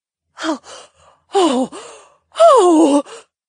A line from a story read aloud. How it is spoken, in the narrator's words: Edany gasped